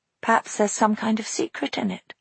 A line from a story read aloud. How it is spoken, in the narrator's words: murmured Maggie thoughtfully